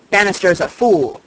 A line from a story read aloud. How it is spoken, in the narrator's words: snapped Mr